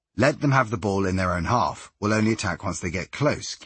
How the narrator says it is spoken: Kiel says

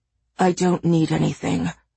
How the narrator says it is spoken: he says in a quiet voice

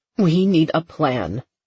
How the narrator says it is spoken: her mother said firmly

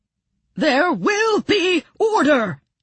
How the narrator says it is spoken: bellowed

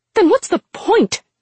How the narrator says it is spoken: She snapped

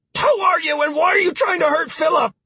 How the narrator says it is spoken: shouted

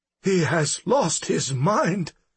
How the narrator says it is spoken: Walking Man gasped, struggling to get his breath

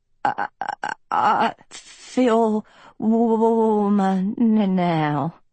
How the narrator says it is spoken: Hort stuttered, face blue

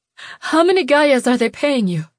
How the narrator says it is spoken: She panted

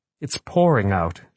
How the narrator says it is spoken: she said

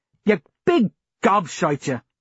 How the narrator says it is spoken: Jackie snapped

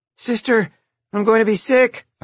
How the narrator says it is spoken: I called out

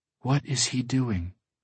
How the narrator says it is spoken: Busara whispers

